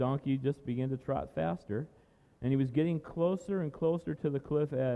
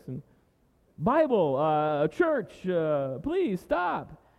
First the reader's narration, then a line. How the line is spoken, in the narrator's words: shouted the man